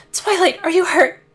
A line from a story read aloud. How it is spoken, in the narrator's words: gasped the changeling